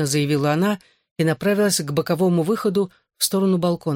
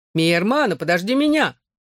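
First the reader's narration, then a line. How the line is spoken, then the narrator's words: Shouted. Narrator (Russian): крикнул Тим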